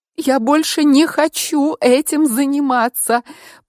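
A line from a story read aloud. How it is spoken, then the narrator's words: Wailing through sobs. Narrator (Russian): провыла я между всхлипами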